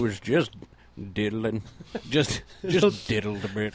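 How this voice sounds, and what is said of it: Old man character voice. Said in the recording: “my impression of the 70-year-old sex offender”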